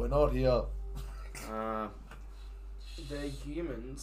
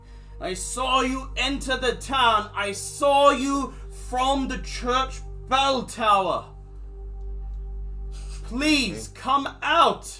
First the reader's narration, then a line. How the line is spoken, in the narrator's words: You hear someone shouting